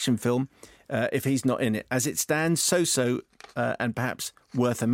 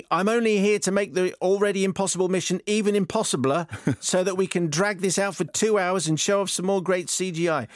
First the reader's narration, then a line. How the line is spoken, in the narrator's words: while screaming, bad, while screaming